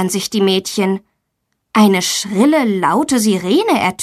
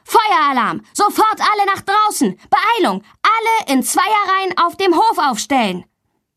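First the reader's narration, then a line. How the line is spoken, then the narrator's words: Teacher shouting loudly. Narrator (German): Ihr Sportlehrer ruft laut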